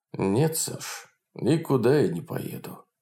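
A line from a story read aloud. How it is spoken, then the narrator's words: Sad old man. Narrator (Russian): печально говорил старик Полунин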